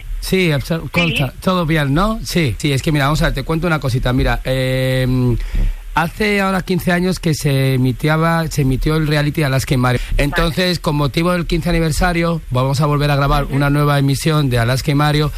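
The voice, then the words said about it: Put-on Valencian Spanish accent. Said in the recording (Spanish): “habla todo el rato con acento valenciano”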